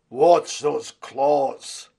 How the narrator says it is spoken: The voice was deep and rumbling

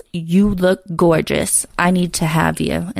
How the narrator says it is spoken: he growls

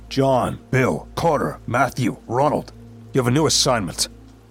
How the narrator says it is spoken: he said sternly

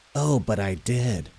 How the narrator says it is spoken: the creature hissed

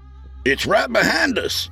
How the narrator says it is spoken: Skeet hollered

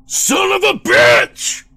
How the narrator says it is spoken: Chris bellowed

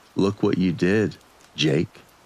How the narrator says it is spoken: Maria said in a calm tone

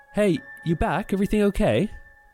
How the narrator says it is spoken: So she called out

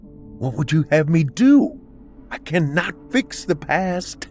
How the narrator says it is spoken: Rachel pleaded

